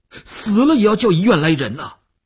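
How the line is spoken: Tense, nearly shouting. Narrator (Chinese): 吴长天头皮一紧，他几乎要喊起来

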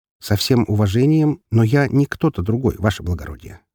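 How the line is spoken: Calm statement. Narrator (Russian): спокойно произнес

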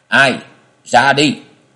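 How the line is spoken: Shouting. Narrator (Vietnamese): Lâm Phủ thần quân quát lên nói

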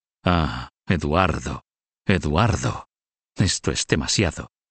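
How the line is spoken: Muttered through teeth. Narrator (Spanish): dijo Mortimer entre dientes

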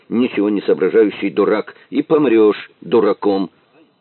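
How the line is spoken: Said angrily. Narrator (Russian): зло сказал Виктор

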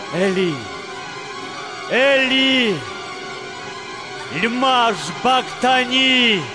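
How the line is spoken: Loud cry. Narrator (Russian): Иса громко крикнул

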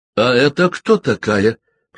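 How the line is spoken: Growl through teeth. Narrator (Russian): прорычала Клэр сквозь зубы

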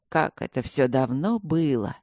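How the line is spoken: Muttering. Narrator (Russian): пробормотал он

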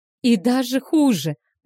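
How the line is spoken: Moaned. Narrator (Russian): простонала та

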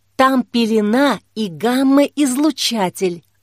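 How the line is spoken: Whisper. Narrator (Russian): прошептала Жанна

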